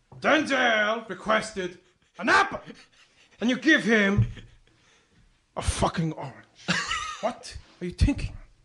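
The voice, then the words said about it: Al Pacino impression. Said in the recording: “do an Al Pacino impression”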